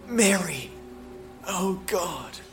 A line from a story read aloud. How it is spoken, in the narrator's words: he whispered